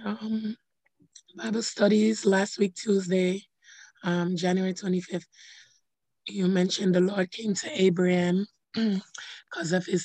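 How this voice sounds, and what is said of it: Hoarse, fading voice. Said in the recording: “Your voice sounds funny. ... I'm losing my voice”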